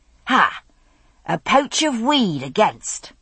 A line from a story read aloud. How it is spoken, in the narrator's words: called triumphantly